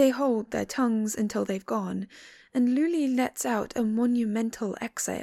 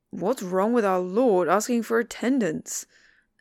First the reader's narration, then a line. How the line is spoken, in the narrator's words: Daga snorts